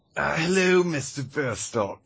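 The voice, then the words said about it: Menacing cultist character voice. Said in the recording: “doing a different voice? ... that's the cultist voice”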